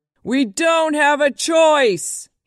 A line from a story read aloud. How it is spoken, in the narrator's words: he screamed